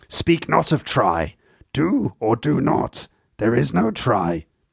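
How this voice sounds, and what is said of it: Bad impression of Yoda's voice. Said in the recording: “Your voice has gone a bit weird, Master Yoda... Original voice actor who did the original voice for Yoda, this is not. Just a terrible impression”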